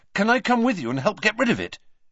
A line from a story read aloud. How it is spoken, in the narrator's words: said Harry quickly